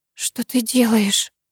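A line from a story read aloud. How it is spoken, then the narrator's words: Whisper on exhale. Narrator (Russian): прошептала я на выдохе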